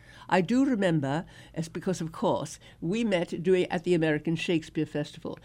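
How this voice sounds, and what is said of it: Brooklyn accent. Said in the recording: “drop your Brooklyn accent. I said, drop my Brooklyn accent? I'd have to drop myself. That's where I'm from.”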